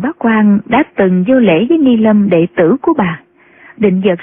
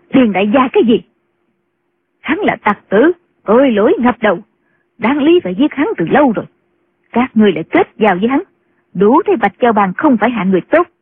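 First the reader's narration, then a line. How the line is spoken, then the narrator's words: Angry nun shouting. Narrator (Vietnamese): Định Vật sư thái tức giận quát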